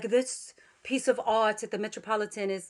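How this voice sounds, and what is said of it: Brief, poor put-on English accent. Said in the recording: “I like the little quick English accent that you went into. ... I'm horrible at it.”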